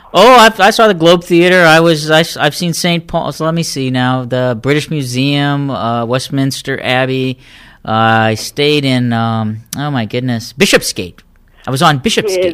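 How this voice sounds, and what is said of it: Put-on accent. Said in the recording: “Your accent is coming on an absolute treat.”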